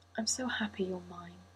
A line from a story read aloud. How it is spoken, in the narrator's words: he breathed